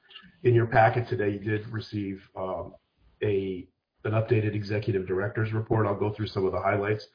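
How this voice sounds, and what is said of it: Sick, impaired voice. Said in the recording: “apologize for my voice. I've caught my second round of COVID.”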